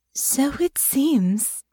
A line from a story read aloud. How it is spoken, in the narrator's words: Honor said, in a slightly dazed tone